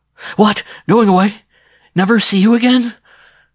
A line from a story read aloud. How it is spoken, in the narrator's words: He was panting now, the breath coming in short, painful gasps